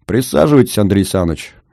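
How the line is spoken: Cheerful. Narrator (Russian): весело сказал я

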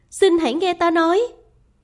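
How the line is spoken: Loud. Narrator (Vietnamese): Nàng lớn tiếng

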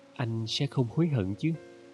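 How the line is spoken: Gentle question. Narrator (Vietnamese): Nefer nhẹ nhàng hỏi

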